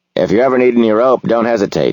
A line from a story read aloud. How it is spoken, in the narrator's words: he says